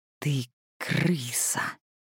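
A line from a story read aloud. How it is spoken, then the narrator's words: Hissing. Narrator (Russian): прошипела она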